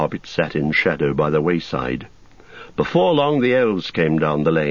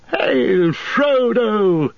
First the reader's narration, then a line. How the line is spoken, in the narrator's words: he cried